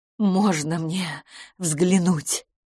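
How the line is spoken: Pleading. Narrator (Russian): взмолилась мисс Петтигрю

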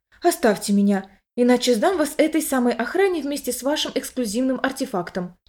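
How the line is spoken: Whisper. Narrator (Russian): шептаться

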